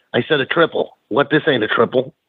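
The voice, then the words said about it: Kevin Sullivan impression, Boston accent. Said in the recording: “in that Boston accent”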